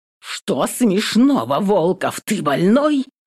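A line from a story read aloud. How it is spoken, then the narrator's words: Growling undertones. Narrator (Russian): В голосе Сони прорываются рычащие нотки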